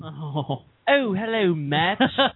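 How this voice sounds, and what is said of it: Bad sprightly chimney-sweep British accent. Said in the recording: “your really bad British impression... That's kind of like the sprightly chimney sweep British person... Jolly good yip chip cheree.”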